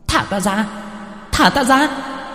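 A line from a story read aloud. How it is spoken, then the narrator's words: Ghostly shriek. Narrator (Vietnamese): Hồn phách của ả rít lên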